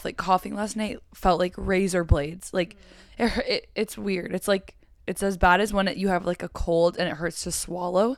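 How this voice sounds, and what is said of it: Hoarse, sick-sounding voice. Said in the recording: “if I sound like, I don't know, a singer, it's because I'm sick ... I was coughing so much ... that's why my voice sounds crazy”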